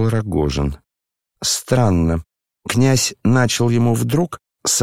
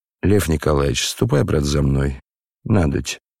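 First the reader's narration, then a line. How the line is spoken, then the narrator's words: Low voice near ear. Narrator (Russian): вполголоса проговорил над самым ухом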